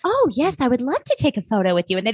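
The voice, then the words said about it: Princess character voice. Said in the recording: “my impression of a princess ... that was really good, actually”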